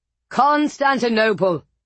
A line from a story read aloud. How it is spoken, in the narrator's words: roared